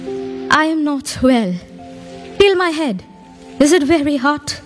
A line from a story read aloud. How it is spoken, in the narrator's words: Postmaster, in a weak voice, replied